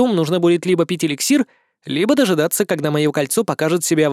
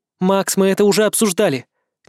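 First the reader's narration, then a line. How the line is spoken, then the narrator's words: Displeased grumble. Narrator (Russian): недовольно пробурчала Алия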